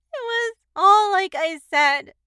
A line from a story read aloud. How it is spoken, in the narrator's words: the kid sobbed